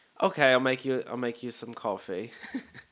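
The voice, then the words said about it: Poorly done put-on accent. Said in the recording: “sorry for this horrible accent.”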